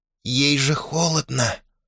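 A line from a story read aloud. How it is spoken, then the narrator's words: Reproachful whisper, young cuckoo. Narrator (Russian): укоризненно прошептал кукушонок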